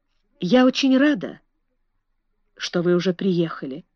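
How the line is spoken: Quiet. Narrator (Russian): тихо сказала миссис Эрроль

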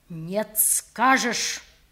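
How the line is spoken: Clipped, threatening father. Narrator (Russian): отчеканил отец, и в голосе его зазвучала угроза

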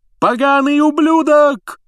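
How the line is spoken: Yelling. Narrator (Russian): завопил Ли Джордан

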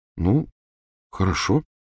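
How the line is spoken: Hesitant agreement. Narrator (Russian): неуверенно согласилась Гермиона

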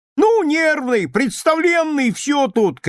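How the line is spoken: Girl shouting through tears. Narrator (Russian): кричала сквозь слезы Гранька, получившая от матери подзатыльник

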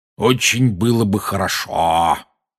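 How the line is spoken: Malicious tone. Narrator (Russian): произнес дядя зловредным тоном

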